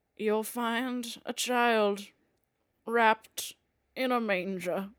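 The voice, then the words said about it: Biblical Jesus-style impression. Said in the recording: “What was that an impression of? ... That's Jesus.”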